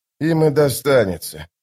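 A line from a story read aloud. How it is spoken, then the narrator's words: Sighed. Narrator (Russian): вздохнул остряк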